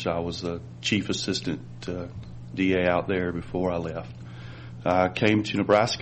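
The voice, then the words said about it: North Carolina Southern accent. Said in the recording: “I'm from North Carolina. You can probably tell by my accent.”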